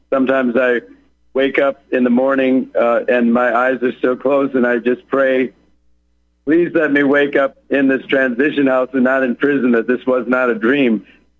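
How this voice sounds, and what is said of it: Raspy, hoarse voice. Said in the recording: “I don't know how raspy my voice is coming over the air to your listeners or to you. This is not my normal voice. I'm quite under the weather ... why I sound so hoarse ... it's just a temporary thing with a bad cold right now”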